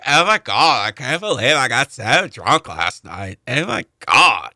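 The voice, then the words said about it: Imitates a hungover party girl. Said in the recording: “that imitation”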